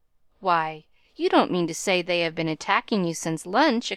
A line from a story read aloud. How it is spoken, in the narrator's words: exclaimed Molly